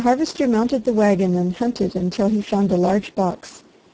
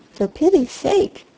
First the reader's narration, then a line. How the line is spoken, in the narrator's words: cried the girl